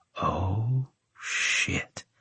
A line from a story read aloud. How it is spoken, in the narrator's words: I whispered